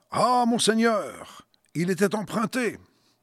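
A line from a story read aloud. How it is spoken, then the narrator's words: Exclaimed. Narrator (French): Il s'écria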